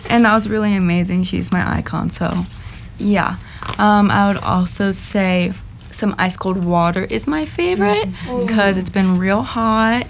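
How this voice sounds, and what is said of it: Hoarse, lost voice. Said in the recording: “As you can tell, my voice is gone”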